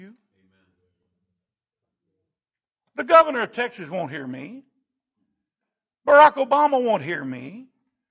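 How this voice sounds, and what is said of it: Rural Southern American accent. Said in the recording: “I know I sound like a hick.”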